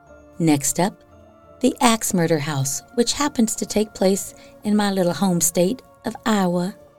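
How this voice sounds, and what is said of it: Put-on southern accent. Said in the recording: “I said it in a southern accent.”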